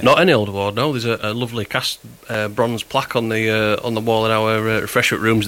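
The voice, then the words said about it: Strong Huddersfield accent. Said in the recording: “your accent... You're from Huddersfield... yours is still as strong as ever”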